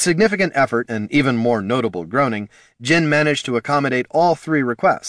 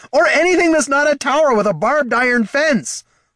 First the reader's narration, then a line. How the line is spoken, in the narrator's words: hollered Heraldin